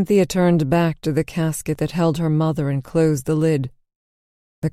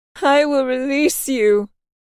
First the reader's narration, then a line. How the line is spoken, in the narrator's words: Cynthia yelled, her shoulders heaving as she cried